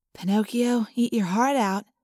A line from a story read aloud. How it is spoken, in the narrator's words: Cassie whispered